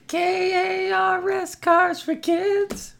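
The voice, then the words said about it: Sung in high falsetto. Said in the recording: “you hit the high notes exquisitely there ... I'm a falsetto ... singing a falsetto”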